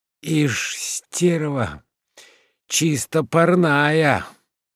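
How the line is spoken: Sleepy voice. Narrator (Russian): сонным голосом говорил Уклейкин

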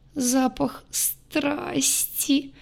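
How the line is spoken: Moaning, sobbing girl. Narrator (Russian): простонала девушка, всхлипывая все чаще

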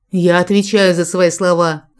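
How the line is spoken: Calm confident loudspeaker growl. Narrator (Russian): рыкнул в громкоговоритель Джек, спокойный и уверенный

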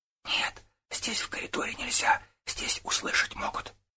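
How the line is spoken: Whispered, maid. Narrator (Russian): шептала горничная

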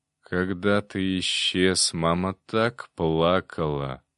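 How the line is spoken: Creaky old voice. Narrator (Russian): проскрипел старик

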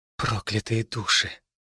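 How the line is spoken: Girl's whisper. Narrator (Russian): прошептала девушка

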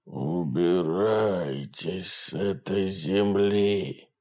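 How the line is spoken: Dry, wheezing voice. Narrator (Russian): Охотник произносит сухим, хрипящим голосом

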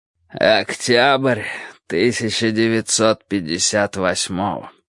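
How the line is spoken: Growled. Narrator (Russian): прорычал Эл

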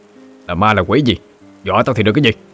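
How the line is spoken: Angry shout. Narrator (Vietnamese): Gã quát

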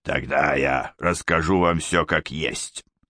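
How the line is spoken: Sudden hoarse wheeze. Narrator (Russian): неожиданно просипел

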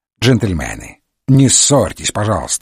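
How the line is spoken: Stern. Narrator (Russian): строго сказал Холмс

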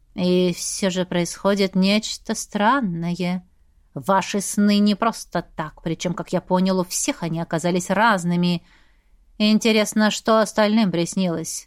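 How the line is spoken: Thoughtful drawl. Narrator (Russian): Задумчиво протянул Сантовар

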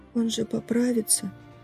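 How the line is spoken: Quiet question. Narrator (Russian): тихонько спросила она

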